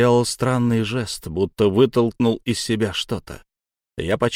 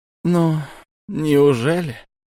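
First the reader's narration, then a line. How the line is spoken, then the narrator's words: Sigh. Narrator (Russian): вздохнул шаман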